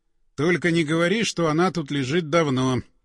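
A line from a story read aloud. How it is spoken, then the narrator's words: Flat colorless voice. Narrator (Russian): каким-то бесцветным голосом сказал напарник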